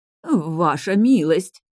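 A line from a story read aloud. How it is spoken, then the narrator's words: Trembling lament, stepmother. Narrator (Russian): дрогнувшим голосом запричитала мачеха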